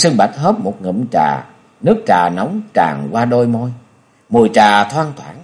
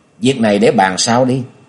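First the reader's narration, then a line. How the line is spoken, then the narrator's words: Smiling. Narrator (Vietnamese): Nhậm Xương Bạch mỉm cười rồi nói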